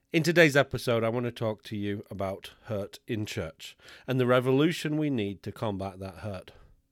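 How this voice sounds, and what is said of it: Sick, rough-sounding voice. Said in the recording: “I want to start by apologising for my voice ... recovering from our second round of COVID ... the greeter told me I sounded horrible ... if you're upset by the way my voice sounds”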